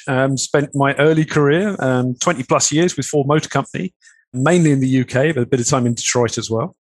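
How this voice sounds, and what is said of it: British accent. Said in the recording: “As you can tell from the accent, I'm British.”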